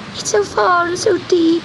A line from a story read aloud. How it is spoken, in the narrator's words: sobbed Gobellino